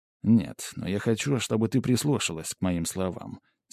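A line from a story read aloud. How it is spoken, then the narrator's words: Serious tone. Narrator (Russian): серьезным тоном сказал я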